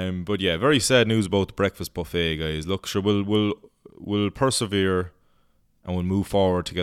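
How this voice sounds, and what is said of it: Usual voice. Nothing is said of it.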